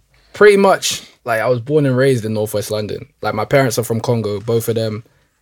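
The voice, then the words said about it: Noticeable accent. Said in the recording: “I've heard an accent straight away.”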